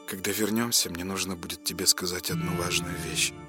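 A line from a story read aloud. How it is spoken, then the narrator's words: Quiet. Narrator (Russian): тихо проговорила она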